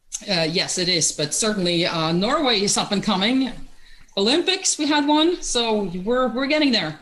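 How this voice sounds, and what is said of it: Norwegian accent. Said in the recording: “that's not an American accent, I hear. You're originally from Norway”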